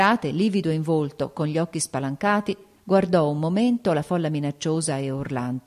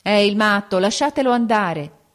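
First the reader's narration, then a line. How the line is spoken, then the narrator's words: Several voices exclaiming. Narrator (Italian): esclamarono alcuni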